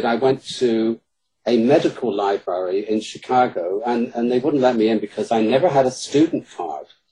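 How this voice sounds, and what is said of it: British accent. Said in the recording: “my British accent in Chicago works wonders”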